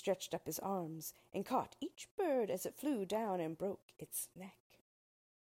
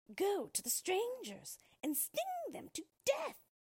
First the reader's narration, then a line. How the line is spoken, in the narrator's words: she cried